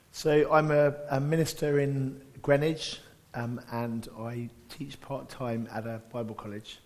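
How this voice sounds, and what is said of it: Squeaky, laryngitis-strained voice. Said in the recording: “I've got laryngitis, so I apologize for my squeakier than normal voice ... even with laryngitis”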